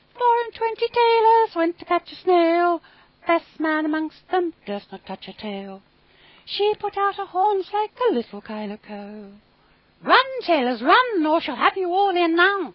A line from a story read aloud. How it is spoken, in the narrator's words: little mouse voices sang loudly and gaily